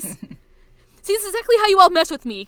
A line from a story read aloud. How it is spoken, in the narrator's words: Kyo shouts